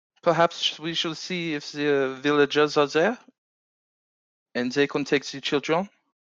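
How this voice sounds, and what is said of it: Attempted put-on accent, nearly there. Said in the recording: “You almost got the accent.”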